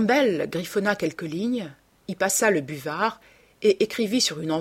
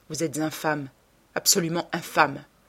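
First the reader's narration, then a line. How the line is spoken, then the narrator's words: Murmured. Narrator (French): murmura-t-il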